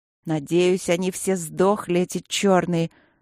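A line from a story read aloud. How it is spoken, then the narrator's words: Spiteful hiss. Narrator (Russian): злобно прошипела я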